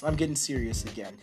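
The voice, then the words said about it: Serious, earnest tone. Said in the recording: “Hear my serious voice.”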